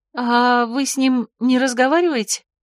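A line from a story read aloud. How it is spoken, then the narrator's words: Confused question. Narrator (Russian): растерянно спросила Марго в полной тишине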